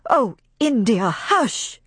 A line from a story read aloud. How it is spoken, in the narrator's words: cried Melanie